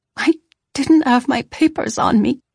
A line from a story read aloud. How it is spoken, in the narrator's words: I choked